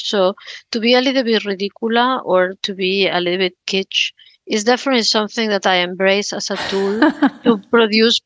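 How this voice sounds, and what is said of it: Strong foreign accent in English. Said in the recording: “I've been a foreigner all my life ... I have a very strong accent when I speak in English”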